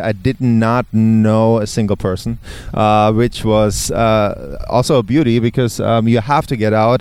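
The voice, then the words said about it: Non-native English accent. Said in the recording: “as you can hear, I have an accent still. I was not good in English”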